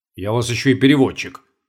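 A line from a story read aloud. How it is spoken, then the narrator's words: Grumble. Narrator (Russian): пробурчал Чертанов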